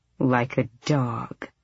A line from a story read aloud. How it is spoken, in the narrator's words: she murmured